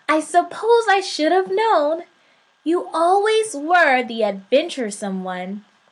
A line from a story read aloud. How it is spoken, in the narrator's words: said God with a chuckle